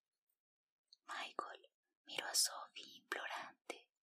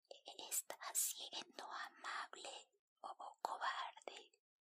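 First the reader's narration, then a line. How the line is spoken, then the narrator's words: Plain. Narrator (Spanish): preguntó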